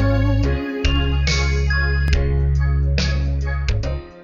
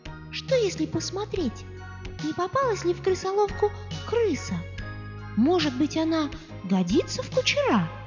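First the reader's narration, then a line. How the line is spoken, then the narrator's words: Timid question. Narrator (Russian): Золушка робко спросила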